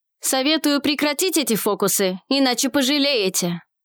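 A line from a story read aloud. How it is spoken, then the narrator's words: Bark. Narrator (Russian): Рявкнул он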